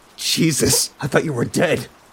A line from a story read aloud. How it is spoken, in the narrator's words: I gasped